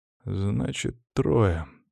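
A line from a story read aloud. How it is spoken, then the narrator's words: Sigh. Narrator (Russian): вздохнул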